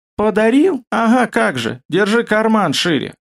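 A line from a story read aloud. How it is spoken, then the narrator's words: Laughing. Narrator (Russian): рассмеялся Шарик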